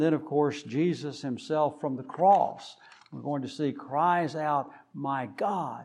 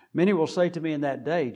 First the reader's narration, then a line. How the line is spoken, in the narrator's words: Jesus says